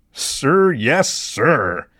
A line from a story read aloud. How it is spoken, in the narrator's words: said sarcastically